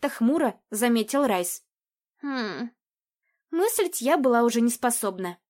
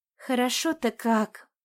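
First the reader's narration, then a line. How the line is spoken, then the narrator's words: Resigned sigh. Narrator (Russian): Райс обреченно вздохнул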